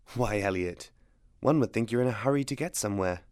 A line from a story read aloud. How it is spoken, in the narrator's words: she murmured, he could see the humor in her eyes